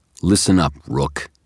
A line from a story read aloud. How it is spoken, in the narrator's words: he said, his voice harsh